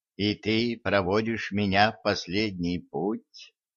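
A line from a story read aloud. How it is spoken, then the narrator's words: Quiet witch. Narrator (Russian): тихо добавила ведьма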